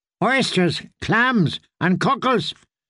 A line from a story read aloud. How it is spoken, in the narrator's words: the girl shouted as she pushed her barrow along the wharfs